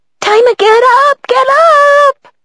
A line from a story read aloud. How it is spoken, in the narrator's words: Poppy chirped